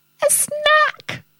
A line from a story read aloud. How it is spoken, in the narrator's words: squealed Rosie